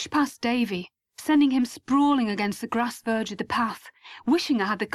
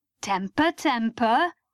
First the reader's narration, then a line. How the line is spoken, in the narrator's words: laughed